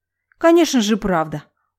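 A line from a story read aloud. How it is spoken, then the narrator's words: Angry reply. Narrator (Russian): зло ответила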